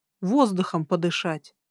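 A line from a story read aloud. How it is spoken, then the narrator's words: Snapping back. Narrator (Russian): огрызнулась я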